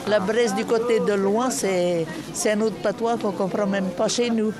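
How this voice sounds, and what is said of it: Rural French Bresse regional accent. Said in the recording (French): “quelle région ici de l'accent? Vous venez de la Bresse ... De la Bresse”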